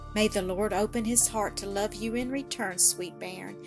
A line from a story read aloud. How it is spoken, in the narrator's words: sighed the good woman